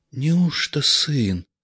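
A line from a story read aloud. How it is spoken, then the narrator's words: Quiet old man's question. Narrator (Russian): тихо спросил дед Нечай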